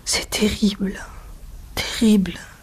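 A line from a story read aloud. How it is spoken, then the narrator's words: Murmured. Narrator (French): murmura-t-il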